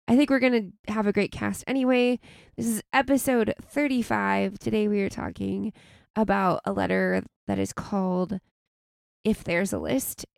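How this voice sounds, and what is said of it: Raspy, slightly sick voice. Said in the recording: “I'm a little sick ... sniffles and coughs ... my voice is a little raspier than usual”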